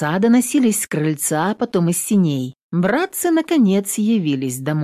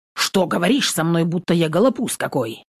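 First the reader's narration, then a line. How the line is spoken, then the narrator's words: Wry grunt. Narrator (Russian): Нютка хмыкнула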